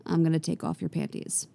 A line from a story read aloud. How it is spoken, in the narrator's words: Mira says calmly